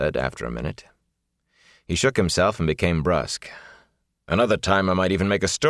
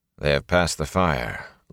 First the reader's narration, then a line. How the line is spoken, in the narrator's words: Lan said calmly